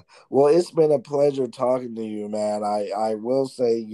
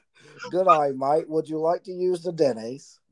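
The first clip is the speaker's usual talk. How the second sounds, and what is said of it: Put-on Australian accent. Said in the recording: “that was pretty good. That's good. ... I just put you Australian there”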